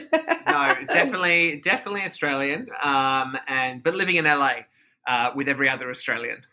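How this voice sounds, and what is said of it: Australian accent. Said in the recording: “The accent. ... I am from Australia. I'm from Sydney.”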